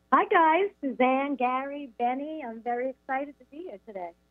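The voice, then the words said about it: New York accent. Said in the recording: “when I hear you say Gary, I'm thinking that you're probably from east of the Mississippi ... I'm not going to be able to hide that New York accent”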